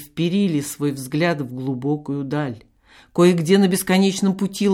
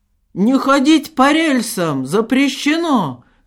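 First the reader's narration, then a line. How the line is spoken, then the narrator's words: Shout. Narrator (Russian): крикнул Шептунов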